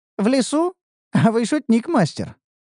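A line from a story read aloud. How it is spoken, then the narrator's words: Laughing. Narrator (Russian): рассмеялась Ниуру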